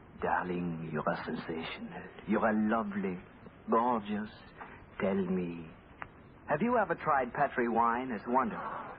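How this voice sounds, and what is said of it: Whispered fake French accent. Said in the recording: “whispering in my fine French accent”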